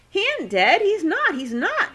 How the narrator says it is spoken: squealed

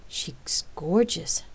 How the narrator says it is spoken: she gasped inwardly

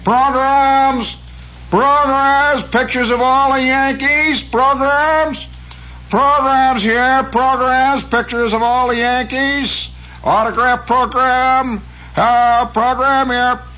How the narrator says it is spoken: you hear somebody say

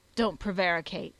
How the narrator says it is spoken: said the cobbler sternly

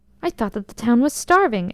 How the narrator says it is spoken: exclaimed his majesty, looking much perturbed

